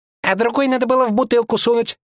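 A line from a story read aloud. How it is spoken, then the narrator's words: Sudden small squeak. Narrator (Russian): Пискнул вдруг бегающий по двору сын Хоффмайера, маленький низушек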